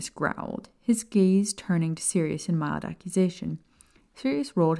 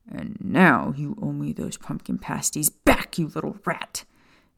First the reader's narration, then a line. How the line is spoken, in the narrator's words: Sirius snarled